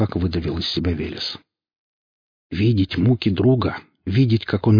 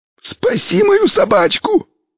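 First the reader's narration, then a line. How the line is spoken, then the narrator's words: Near shout. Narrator (Russian): практически выкрикнул нищий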